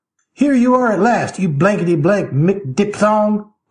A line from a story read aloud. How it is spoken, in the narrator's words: he yelled bloodthirstily